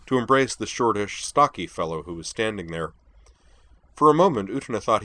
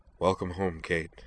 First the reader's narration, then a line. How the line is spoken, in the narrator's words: said the new arrival softly